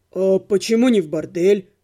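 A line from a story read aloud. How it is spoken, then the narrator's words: Snorting. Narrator (Russian): хмыкнул Отто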